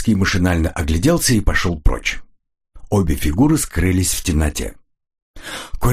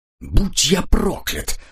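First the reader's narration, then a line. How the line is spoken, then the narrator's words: Mutter. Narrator (Russian): пробормотал Коридон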